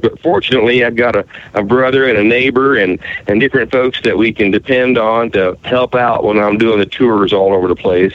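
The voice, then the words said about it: Southern Appalachian country twang. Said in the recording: “you do have like a really nice country accent ... some Appalachian type of twang and southern twang”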